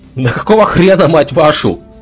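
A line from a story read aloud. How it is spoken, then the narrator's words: Guard yelling furiously. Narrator (Russian): орал часовой южного блокпоста бара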